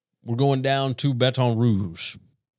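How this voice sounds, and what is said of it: Put-on accent. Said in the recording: “I don't know why I have to talk with that accent. I do it every time.”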